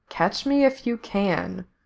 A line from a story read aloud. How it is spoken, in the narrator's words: he read out softly